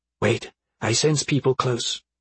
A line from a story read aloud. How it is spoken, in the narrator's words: Beatrix whispered